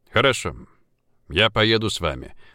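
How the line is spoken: Flat, condescending. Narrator (Russian): ровным голосом произнес Поляковский, словно одолжение делал

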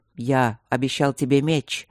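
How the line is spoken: Solemn, sincere. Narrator (Russian): сказал дракон торжественно, но это не казалось ни пафосным, ни смешным

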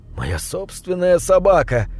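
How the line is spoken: Sorrowful sigh. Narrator (Russian): вздохнул бедный Рип

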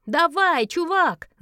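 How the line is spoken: Shouting. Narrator (Russian): закричала она

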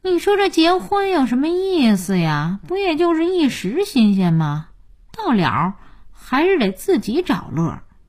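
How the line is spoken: Sighing. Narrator (Chinese): 叹气

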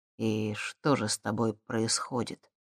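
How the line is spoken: Quiet question. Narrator (Russian): тихо спросил

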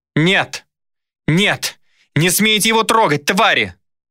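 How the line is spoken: Frantic, desperate screaming. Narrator (Russian): кричала не своим голосом Дайна, пытаясь вырваться из рук стражей

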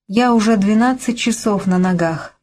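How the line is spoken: Sigh. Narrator (Russian): вздохнула Ливи

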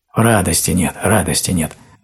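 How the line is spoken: Bear cub muttering. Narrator (Russian): забормотал медвежонок

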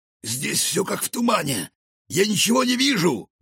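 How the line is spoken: Exclaimed. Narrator (Russian): воскликнул Рикошет

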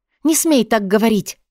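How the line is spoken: Exclamation. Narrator (Russian): воскликнула я

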